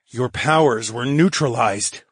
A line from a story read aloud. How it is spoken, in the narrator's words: I grunted